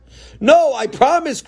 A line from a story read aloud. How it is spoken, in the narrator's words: cried Tzadok